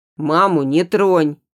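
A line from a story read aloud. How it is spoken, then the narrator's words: Sudden hoarse, breaking shout. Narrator (Russian): вдруг выкрикивает Димка, и его хриплый, срывающийся голос эхом разносится по тихой кухне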